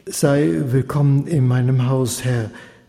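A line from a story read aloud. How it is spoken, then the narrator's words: Hoarse blurted words. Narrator (German): stieß er mit heiserer Stimme hervor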